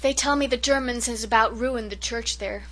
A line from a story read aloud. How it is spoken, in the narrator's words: sighed Cousin Sophia